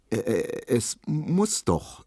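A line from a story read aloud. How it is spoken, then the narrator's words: Stammering. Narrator (German): stotterte Emil Kubinke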